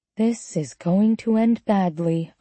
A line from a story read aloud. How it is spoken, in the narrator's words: I murmured